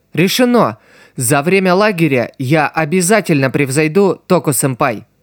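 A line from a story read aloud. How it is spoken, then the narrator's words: Loud princess declaring. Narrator (Russian): громко заявила принцесса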